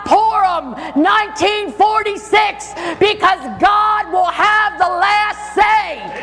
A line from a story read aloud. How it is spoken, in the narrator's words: he yelled out